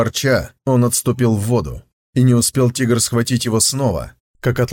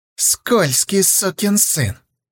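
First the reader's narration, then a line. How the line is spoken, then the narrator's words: Hissing tiger. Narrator (Russian): прошипел тигр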